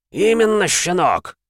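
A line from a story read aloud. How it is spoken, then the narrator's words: Pained growl. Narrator (Russian): рычал Эмма, кривясь от боли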